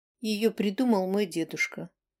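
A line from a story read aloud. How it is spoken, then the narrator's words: Quiet. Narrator (Russian): тихо говорила Чьяна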